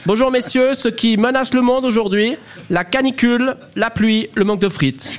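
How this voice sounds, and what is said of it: Attempted regional accent. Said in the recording (French): “j'arrive pas à faire votre accent veuvezant”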